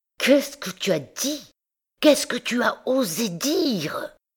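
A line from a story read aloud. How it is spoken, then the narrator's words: Hissed from a tight throat. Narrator (French): Ces paroles sifflaient, sortaient, avec peine de la gorge contractée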